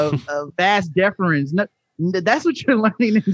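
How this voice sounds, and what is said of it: Usual voice. Nothing is said of it.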